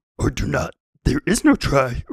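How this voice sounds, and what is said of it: Rough Yoda voice impression. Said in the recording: “at one point I did Yoda. I can't do it anymore ... blows out my, my voice ... I can't do that very well”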